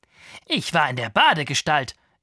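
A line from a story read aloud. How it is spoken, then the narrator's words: Proud explanation. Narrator (German): erklärte ich stolz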